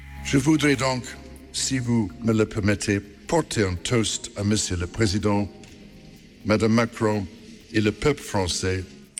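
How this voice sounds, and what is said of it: French with an English accent. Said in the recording (Dutch): “met een Engels accent, maar het is Frans”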